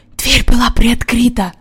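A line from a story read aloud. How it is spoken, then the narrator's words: Whispered. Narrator (Russian): прошептал Джон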